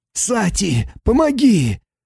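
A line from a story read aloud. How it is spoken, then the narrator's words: Hoarse wheeze. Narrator (Russian): прохрипел он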